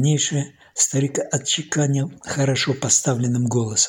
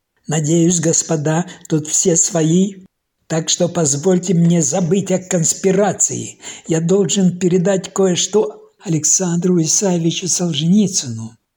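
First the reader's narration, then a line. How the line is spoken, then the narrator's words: Old man nearly shouting. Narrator (Russian): Худой, бородатый старик почти кричал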